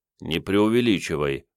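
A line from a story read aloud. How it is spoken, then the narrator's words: Mumbling. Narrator (Russian): пробормотал Сан Саныч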